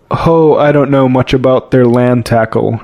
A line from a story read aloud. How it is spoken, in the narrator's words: replied the seaman